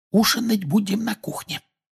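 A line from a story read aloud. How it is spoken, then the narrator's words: Whispering. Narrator (Russian): прошептала миссис Уизли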